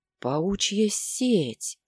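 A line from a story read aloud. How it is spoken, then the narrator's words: Breathless exhale. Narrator (Russian): выдохнул воин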